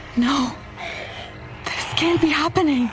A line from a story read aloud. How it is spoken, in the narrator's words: gasped